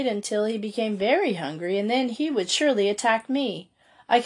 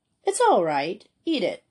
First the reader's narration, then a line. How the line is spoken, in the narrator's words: I cried